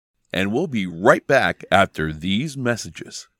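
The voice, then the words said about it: Announcer-style TV voice. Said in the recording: “Let me do my best TV voice.”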